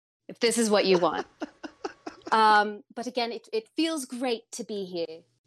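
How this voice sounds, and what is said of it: Put-on British accent. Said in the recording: “I'm just going to pump up my British accent now then... apparently British accents win matches”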